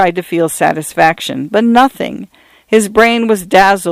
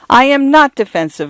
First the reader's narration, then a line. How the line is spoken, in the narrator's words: a girl cried